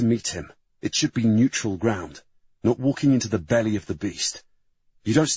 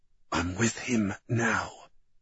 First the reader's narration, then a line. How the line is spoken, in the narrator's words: Julie whispered